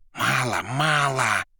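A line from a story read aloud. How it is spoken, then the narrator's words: Whispered. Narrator (Russian): шептал Коровьев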